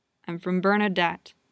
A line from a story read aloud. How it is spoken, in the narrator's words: he mutters